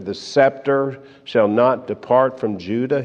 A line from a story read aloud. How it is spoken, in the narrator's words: says